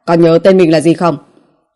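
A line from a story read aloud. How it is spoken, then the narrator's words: Cold barked shout. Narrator (Vietnamese): nguyên soái lạnh giọng quát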